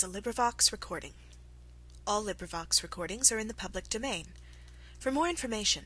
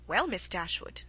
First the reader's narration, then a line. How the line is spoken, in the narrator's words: said Mrs